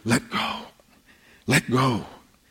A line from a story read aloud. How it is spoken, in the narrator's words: to whisper